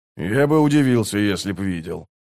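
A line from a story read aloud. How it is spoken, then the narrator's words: Grumbling. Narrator (Russian): проворчал Скворец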